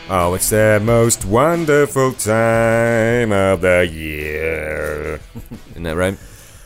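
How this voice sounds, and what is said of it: Sings in an imitated character voice. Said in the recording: “Not with that kind of singing. ... That's my Ron Burgundy impression.”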